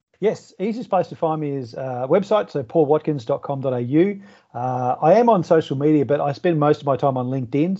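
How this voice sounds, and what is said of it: Australian accent. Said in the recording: “my dulcet tones and Aussie accent”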